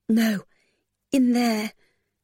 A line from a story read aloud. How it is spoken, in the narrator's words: Lily protested in a weak voice